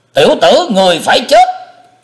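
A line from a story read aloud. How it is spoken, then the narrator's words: Man roaring. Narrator (Vietnamese): tên đại hán gầm lên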